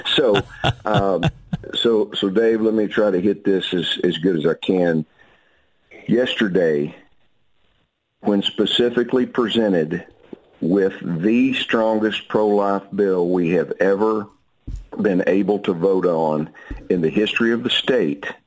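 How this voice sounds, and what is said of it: Strained, worn-out speaking voice. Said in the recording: “Forgive my voice. I did a lot of talking yesterday.”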